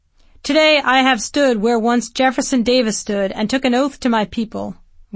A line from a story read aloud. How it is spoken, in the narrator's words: Wallace shouted